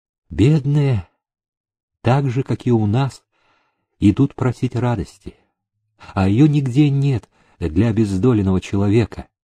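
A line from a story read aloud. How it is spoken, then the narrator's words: Sighing remark. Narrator (Russian): Аннушка, вздохнув, обронила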